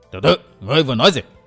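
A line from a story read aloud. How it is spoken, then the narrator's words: Old man's bark. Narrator (Vietnamese): Lão quát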